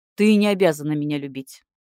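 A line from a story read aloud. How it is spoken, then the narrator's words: Rough. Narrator (Russian): сказал грубо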